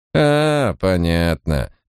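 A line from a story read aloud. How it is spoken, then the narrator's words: Drawn-out. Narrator (Russian): протянула она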